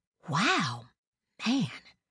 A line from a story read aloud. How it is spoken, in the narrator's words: she whispered